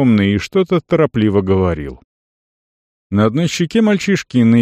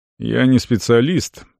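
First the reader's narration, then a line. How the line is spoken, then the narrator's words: Thoughtful speech. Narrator (Russian): проговорил Тибор задумчиво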